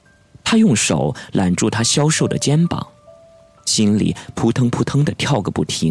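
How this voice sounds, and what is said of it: Usual voice. Nothing is said of it.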